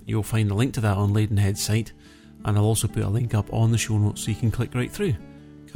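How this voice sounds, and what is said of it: Crackly, croaky voice. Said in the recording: “my voice is going a bit crackly here. It's croaking a bit... I've got a really dry throat”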